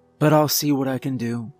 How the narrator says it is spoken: she sighed

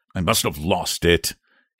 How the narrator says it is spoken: he muttered angrily

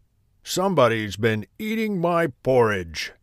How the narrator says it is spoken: growled

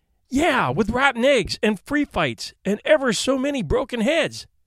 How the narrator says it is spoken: exclaimed Eric

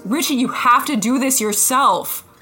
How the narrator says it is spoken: he just yells

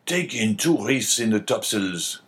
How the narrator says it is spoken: cried the captain

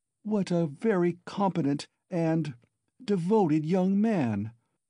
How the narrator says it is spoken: cried Pulcheria Alexandrovna, exceedingly delighted

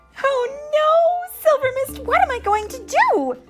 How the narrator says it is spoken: Tink wailed

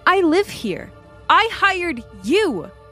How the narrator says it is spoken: I shouted at the lookalike

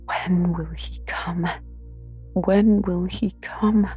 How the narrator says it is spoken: I cried inwardly

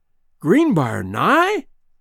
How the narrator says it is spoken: he exclaimed

